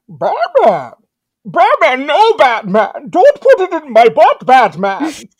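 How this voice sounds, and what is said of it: Bane villain character voice. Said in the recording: “a pretty good Bane impression”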